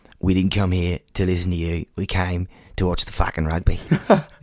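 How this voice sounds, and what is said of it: Imitated Melbourne-sounding Australian accent. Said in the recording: “That wasn't the right accent. That's like Melbourne accent”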